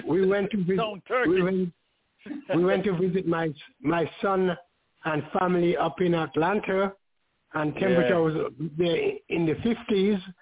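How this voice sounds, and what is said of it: Scratchy, slightly raspy voice. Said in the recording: “your voice seems scratchy ... A little raspy”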